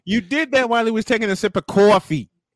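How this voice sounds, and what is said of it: Strong East Coast American accent. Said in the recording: “My East Coast accent is coming all the way out.”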